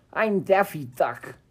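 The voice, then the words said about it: Poor Daffy Duck cartoon voice. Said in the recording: “my Daffy Duck impression ... I murdered that. That was terrible.”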